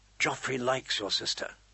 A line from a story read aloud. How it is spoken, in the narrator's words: Jane whispered, proud as if she had something to do with it